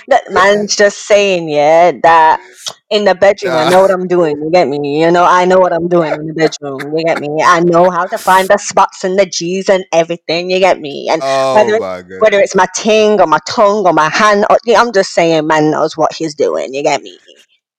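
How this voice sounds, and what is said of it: Imitates another person's voice. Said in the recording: “that was a great impression ... that was a good impression”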